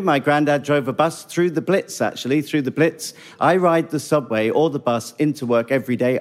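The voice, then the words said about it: British accent. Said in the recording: “A British accent goes a long way ... it's British ... Charm.”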